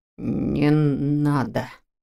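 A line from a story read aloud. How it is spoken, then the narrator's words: Hoarse, curt command. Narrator (Russian): Так же хрипло и отрывисто велел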